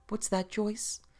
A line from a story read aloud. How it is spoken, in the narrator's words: he cried